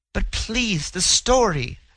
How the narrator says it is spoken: the girl begged

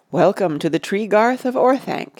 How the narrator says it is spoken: he said

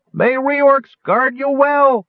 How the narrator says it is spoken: Wingover cried

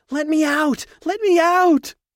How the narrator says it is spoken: She screaming

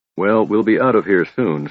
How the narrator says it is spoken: Sturm said

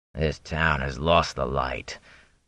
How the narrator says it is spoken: growled the man

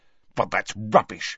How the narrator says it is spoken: snapped Harry

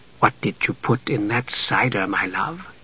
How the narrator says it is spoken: Jenna whispered to Dalimar

